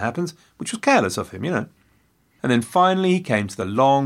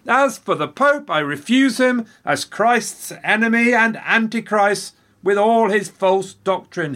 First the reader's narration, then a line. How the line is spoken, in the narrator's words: yelled